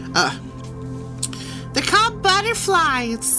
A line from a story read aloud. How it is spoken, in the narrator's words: Sarah giggled